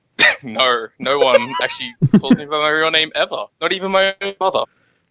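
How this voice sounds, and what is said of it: Speaks with a noticeable accent. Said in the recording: “because of your accent, I can't tell if you're being sarcastic or not”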